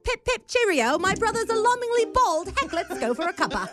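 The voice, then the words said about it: Put-on British accent. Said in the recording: “everything sounds nicer in a British accent”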